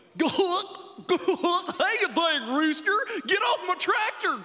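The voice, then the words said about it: Exaggerated hillbilly voice. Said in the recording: “my impression of Tom Hanks doing his impression of a hillbilly ... He's so bad at playing hillbillies ... Terrible at hillbillies”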